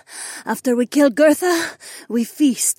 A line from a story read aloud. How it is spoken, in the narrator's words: Jessamine panted